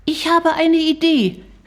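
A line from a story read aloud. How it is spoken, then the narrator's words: Call while leaving. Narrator (German): rief Shari, schon fast aus dem Zimmer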